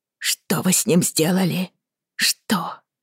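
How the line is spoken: Strained, effortful whisper. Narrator (Russian): Сдавленно, через силу прошептала Бриана

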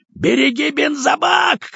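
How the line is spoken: Shouted. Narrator (Russian): крикнул Кожаный

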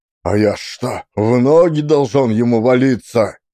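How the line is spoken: Angry reply. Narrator (Russian): Сердито ответил Сафрон Марье

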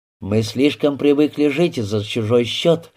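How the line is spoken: Grumble. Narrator (Russian): буркнул Рябинин

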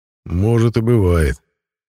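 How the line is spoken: Reluctant grumble. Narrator (Russian): с неохотой пробурчал мой напарник

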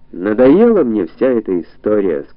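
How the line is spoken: Irritated tone. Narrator (Russian): сказала я дьяволу нормально раздраженным тоном

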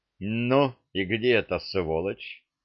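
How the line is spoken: Angry young man asking. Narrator (Russian): сердито вопросил пространство юноша

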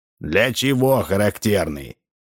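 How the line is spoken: Stern old man asking. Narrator (Russian): строго спросил старик Ложкин

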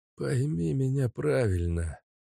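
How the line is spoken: Tired explanation, old man. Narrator (Russian): начал устало пояснять старик

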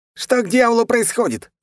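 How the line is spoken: Yelling. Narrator (Russian): завопил китаец

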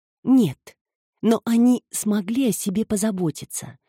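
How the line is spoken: Soft remark. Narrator (Russian): мягко заметила Филомена

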